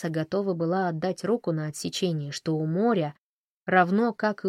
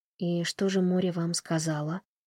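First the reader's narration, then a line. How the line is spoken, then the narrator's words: Soft question. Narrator (Russian): мягко спросила Тесса у Сэма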